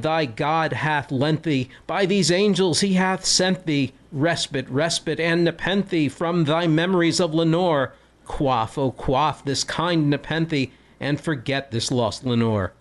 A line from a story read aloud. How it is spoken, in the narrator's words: I cried